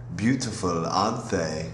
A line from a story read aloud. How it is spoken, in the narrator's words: purred in a Russian accent, husky with the memory of late nights and champagne receptions